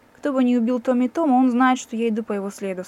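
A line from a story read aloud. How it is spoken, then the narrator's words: Plain. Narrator (Russian): сказал я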